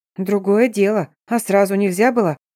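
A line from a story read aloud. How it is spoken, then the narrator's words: Grumbled. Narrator (Russian): Проворчала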